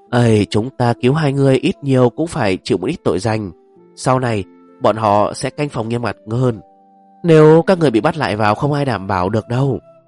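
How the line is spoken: Sighing. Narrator (Vietnamese): một tên đội trưởng bối phận cao nhất thở dài nói

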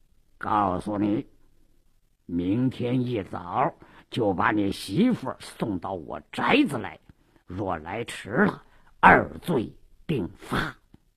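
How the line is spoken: Low, hushed voice. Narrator (Chinese): 鲁斋郎压低了声音

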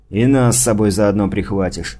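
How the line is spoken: Muttered. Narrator (Russian): буркнул Ботвинник

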